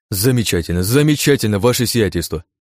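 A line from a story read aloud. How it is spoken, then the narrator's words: Exclaiming. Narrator (Russian): воскликнул Шестопалов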